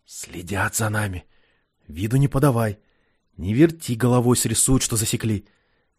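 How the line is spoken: Insinuating whisper close to ear. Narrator (Russian): Киря вкрадчиво, чуть ли не в ухо забравшись, прошептал

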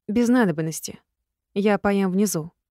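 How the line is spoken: Cold reply. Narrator (Russian): ответила холодно я

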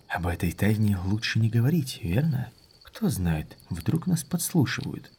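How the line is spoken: Lowered whisper. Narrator (Russian): Он понизил голос, шепнув

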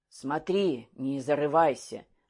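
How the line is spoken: Sighed. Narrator (Russian): вздохнул Толстокулаков

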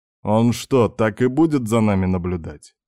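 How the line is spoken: Irritated question. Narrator (Russian): раздраженно спросил Попов

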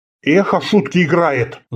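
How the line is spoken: Angry hiss. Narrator (Russian): зло прошипел

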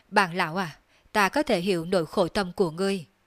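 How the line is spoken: Sighing. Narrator (Vietnamese): Đường Phong thở dài nói

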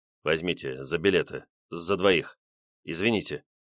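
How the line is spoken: Pleading mumble. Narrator (Russian): просительным тоном пробормотал он

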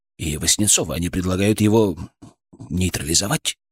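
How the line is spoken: Trailing to whisper. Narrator (Russian): Последнее слово он произнес почти шепотом

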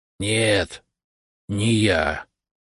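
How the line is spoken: Hoarse ghost. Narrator (Russian): хрипло ответил призрак

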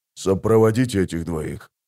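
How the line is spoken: Whisper. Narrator (Russian): прошептал он

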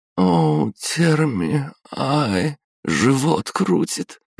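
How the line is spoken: Girl moaning in pain. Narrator (Russian): выдала девушка и снова застонала

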